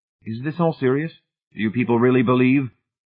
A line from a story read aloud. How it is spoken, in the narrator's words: Hamilton said harshly